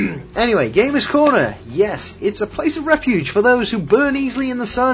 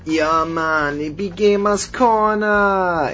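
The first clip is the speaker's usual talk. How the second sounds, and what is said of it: Badly done put-on accent. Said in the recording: “That was a horrible accent, I do apologise.”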